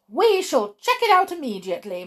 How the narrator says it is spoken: my grandmother cried

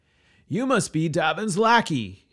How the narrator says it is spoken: he yelled back down

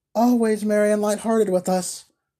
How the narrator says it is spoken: cried the smiling Bertha

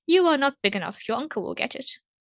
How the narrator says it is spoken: replied she

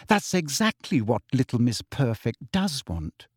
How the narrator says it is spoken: said Hermione sweetly

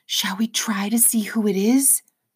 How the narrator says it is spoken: She whispered

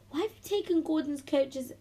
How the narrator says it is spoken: Emily snapped sharply

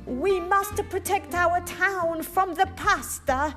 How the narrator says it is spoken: shouted the mayor

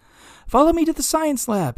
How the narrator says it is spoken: shouted

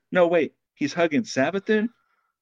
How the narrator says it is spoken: Glint called out again

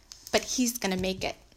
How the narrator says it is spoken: Louis said

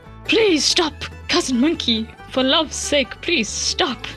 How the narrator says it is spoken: Wolf was the first to cry out in pleading tones breathlessly

